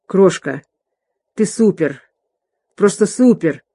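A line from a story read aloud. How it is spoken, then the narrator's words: Hoarse. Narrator (Russian): Тодд хрипло произнес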